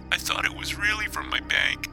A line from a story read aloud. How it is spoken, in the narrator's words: she said, sobbing